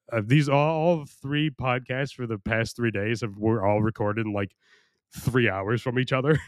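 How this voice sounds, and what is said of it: Deep, worn-out, strained voice. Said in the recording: “at least my voice is deep, even though like it's been punished for the past week... my voice is starting to go”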